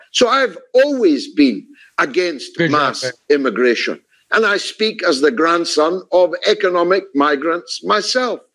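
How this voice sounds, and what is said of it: A strong, notable accent. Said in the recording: “his great accent”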